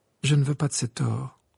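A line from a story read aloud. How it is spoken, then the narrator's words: Flat toneless voice. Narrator (French): répondit Harry d'une voix sans timbre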